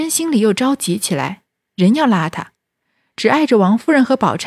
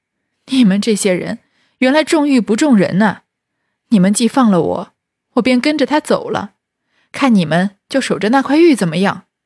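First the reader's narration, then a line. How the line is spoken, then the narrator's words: Laughing. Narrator (Chinese): 宝玉笑道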